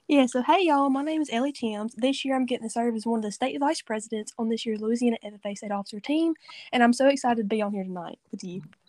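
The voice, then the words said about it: Southern Louisiana accent. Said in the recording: “I love your accent... Your accent's awesome... you are pretty down south. You're in Cajun country... your accent's so cool”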